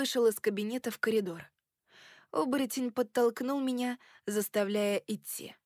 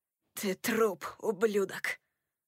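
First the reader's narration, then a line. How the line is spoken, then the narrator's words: Hoarse. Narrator (Russian): хрипло проговорил он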